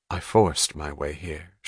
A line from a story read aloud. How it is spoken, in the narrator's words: she said quietly